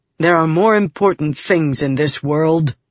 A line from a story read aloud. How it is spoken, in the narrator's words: Helleran said